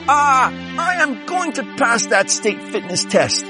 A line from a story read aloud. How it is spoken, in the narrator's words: she screams, pulling herself up to the bar